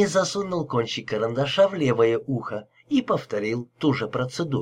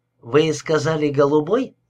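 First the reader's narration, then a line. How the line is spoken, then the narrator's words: Plain. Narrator (Russian): спросил Хенни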